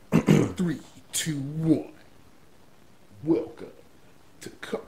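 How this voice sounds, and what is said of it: Dramatic movie-trailer announcer voice. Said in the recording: “your movie man, movie phone voice”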